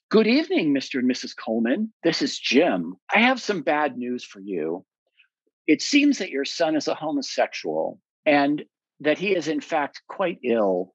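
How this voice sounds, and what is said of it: Eddie Haskell-style polite voice. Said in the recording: “In his best Eddie Haskell voice”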